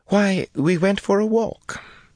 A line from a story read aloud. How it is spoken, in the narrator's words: Elaine said brightly